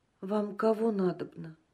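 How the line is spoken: Quiet question, woman. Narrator (Russian): Женщина тихо спросила

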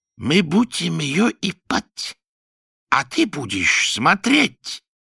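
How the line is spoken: Distinct menacing hiss. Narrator (Russian): отчетливо прошипел Руфат

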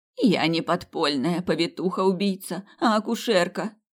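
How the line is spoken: Hoarse croak. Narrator (Russian): прохрипела

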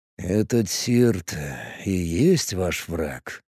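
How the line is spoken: Quiet question. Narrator (Russian): тихо спросил Варп

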